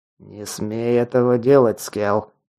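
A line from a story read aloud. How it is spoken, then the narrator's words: Big man through teeth. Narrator (Russian): процедил сквозь зубы серый здоровяк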